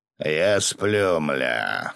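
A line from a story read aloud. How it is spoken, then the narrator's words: Sudden grumble. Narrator (Russian): вдруг проворчал он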